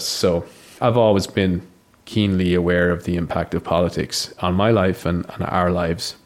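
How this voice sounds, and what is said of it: Irish accent. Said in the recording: “this isn't a Grinrod accent that you can hear me speaking with. So obviously, I grew up in Ireland ... raised as an Irishman”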